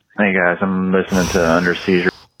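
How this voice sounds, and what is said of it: Deep, slow Southern drawl. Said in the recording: “Inject that voice into my veins. ... it's the drawl, too. ... Southern. He's Southern. He's got a deep voice. ... He's got like a slow, like, plodding melodic cadence.”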